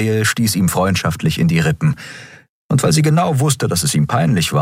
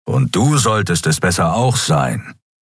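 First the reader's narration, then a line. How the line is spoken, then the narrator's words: Growled. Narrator (German): knurrte Keru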